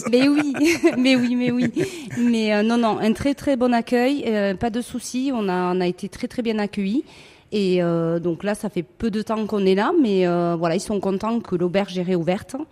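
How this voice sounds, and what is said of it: Sunny regional French accent. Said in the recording (French): “avec mon accent, j'amène un petit peu de soleil”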